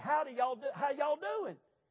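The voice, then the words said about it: Put-on Southern US accent. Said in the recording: “the accent in the South”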